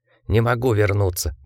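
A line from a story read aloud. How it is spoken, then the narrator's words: Muttering in sleep. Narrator (Russian): бормотал он во сне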